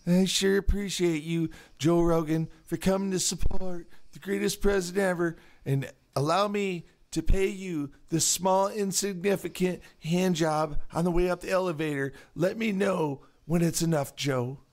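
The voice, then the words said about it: Donald Trump impression. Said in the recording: “his Trump accent”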